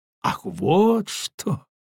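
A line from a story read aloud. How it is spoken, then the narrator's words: Mocking woman. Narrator (Russian): насмешливо промолвила маркиза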